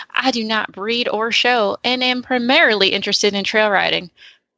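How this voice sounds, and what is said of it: Put-on Southern American accent. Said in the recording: “I love your southern accent. It's perfect.”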